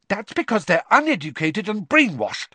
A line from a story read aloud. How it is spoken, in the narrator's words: Hermione began hotly